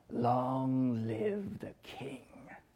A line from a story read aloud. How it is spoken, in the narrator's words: Scar smiles an evil smile, and wickedly purrs